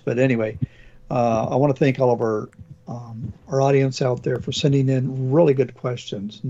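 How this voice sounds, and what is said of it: Hoarse voice from a cold. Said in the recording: “I got a little bit of a cold today, so losing my voice.”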